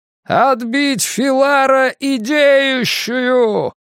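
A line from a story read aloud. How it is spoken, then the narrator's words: Shout. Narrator (Russian): крикнул Драккайнен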